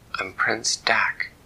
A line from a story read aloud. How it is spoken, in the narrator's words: said Dak